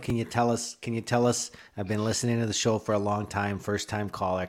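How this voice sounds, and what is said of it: Put-on Bridgeport Chicago accent. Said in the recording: “I got no idea why I got that accent out ... There's not Canadian even in the slightest. That's just Bridgeport.”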